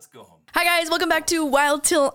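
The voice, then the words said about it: Very loud, almost screaming. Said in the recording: “Oh my god, I'm so loud. ... I feel like I'm screaming. ... You are screaming.”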